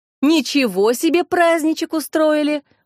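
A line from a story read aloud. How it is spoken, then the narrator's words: Exclaiming. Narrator (Russian): воскликнула Кристина Красильникова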